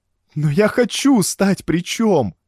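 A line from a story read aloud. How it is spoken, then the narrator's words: Tearful speech. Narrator (Russian): сквозь слезы сказала Валерий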